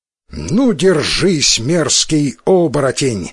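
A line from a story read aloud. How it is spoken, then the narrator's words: Battle cry. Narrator (Russian): воскликнул Исикотаро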